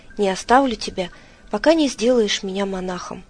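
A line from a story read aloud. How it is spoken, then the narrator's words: Priest exclaiming. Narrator (Russian): жрец воскликнул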